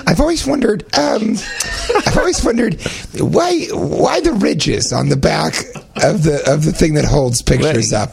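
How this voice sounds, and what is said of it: Imitates another person's voice. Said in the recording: “Is that an accurate impersonation of me?”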